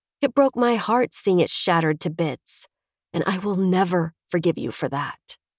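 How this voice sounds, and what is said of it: Voice thick with held-back tears. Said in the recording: “My voice is thick with unshed tears.”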